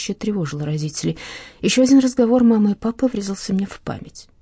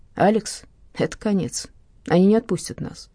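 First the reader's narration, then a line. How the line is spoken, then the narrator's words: Father's sad speech. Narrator (Russian): сказал отец печально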